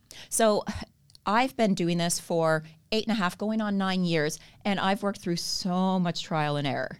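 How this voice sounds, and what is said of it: Canadian accent. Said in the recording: “I have a Canadian accent... you still sound as Canadian as they come... I don't think I'm going to lose that accent”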